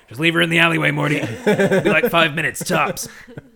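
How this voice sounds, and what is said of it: Cartoon scientist character voice impression. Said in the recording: “good Rick impression”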